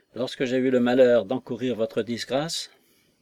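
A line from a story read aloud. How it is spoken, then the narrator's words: Sighing. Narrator (French): dit Jones en soupirant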